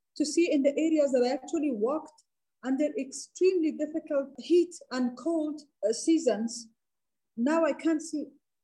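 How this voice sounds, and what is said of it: Emotional, moved voice. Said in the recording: “I'm sorry, I got a little bit emotional.”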